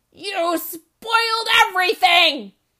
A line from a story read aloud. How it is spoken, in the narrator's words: he was shouting at her